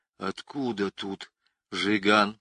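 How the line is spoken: Whisper. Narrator (Russian): прошептал Петька

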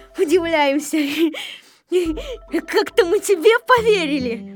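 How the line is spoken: Group laughing while speaking. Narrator (Russian): Все смеялись над Незнайкой и говорили

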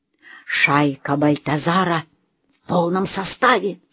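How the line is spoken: Whispered. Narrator (Russian): шепнула Лена

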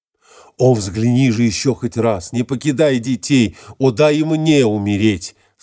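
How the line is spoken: Tearful exclamation. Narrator (Russian): Со слезами воскликнул Адмет

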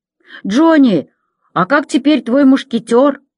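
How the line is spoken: Loud question from the back. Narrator (Russian): громко спросили с задней парты

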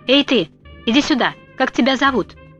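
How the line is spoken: Shouted. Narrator (Russian): Она крикнула

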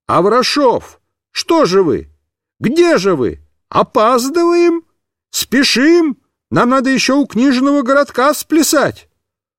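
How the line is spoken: Shouting clown. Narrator (Russian): какой-то клоун закричал

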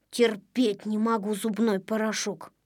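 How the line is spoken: Grumbling. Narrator (Russian): проворчал Незнайка

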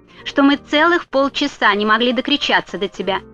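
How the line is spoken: Angry gatekeeper reply. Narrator (Russian): сердито ответил страж ворот

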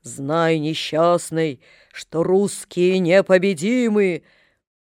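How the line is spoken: Sepulchral voice. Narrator (Russian): Незнакомец ответил загробным голосом

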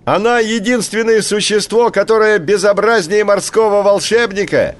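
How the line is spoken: Shouting bird. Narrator (Russian): крикнул большой поморник

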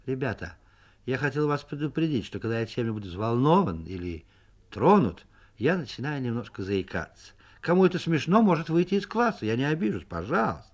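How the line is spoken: Calm, normal tone. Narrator (Russian): сказал в сторону Соньки нормально и спокойно

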